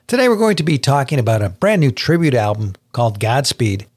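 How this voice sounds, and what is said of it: Smooth, rich radio announcer voice. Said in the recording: “the silky, velvety richness of your radio voice”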